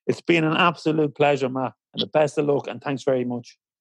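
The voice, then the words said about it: Emotional, choked-up voice. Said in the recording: “I'm getting a little emotional now.”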